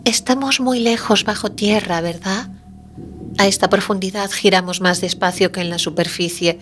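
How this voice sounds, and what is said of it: Dreamy child's voice. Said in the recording (Spanish): “La voz de niño adquiere un tono ensoñador.”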